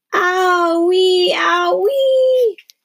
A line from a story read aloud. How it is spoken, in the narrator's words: she wailed